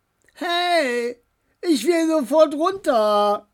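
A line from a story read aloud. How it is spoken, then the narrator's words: Calling after. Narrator (German): rief Knut den Beinen hinterher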